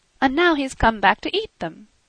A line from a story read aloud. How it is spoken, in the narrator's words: cried Marie